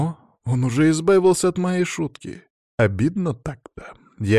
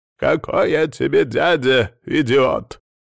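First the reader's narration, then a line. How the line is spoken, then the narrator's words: Growled. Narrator (Russian): прорычал Адамыч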